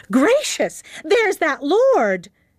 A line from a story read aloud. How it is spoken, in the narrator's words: Henrietta exclaimed in a high voice